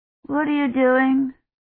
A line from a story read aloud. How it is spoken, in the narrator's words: Colin asked sleepily